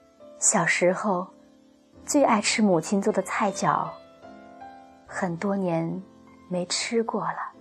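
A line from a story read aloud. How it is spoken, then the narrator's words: Murmuring. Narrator (Chinese): 其中一个 喃喃地说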